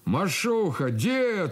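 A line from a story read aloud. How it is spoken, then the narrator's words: Fervent yelling. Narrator (Russian): орал он истово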